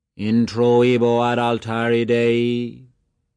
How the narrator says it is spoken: He intoned

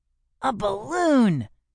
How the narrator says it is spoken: cried Mo

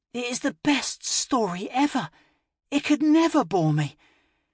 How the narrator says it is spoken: Sally pleaded

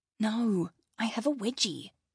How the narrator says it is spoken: whispered

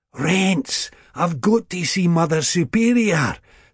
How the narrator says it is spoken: sick boy gasped

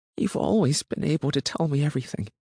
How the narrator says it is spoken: Enby murmured

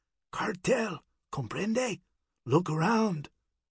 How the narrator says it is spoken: The big man could barely hear him as he half-whispered

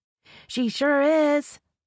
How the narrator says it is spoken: Tanya shouts at the top of her lungs

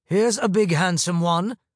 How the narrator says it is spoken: a man's voice boomed

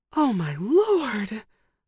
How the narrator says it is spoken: a soft voice gasped

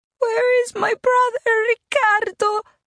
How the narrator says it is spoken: she wailed

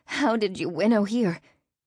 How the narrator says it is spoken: She stammered

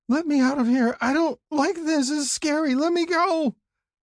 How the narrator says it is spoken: sobbing and screaming

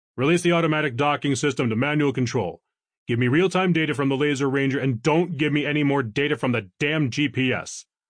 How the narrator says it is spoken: barked

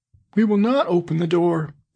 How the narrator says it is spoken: cried they

